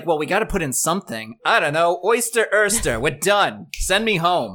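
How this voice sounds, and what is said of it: Weird put-on New York accent. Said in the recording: “That was like a weird New York accent.”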